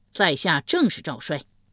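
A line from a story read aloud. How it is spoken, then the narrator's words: Loud reply. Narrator (Chinese): 赵衰高声应道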